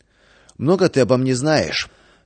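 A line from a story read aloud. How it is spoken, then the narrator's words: Angry breathless question. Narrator (Russian): Наконец, отдышавшись, зло спросил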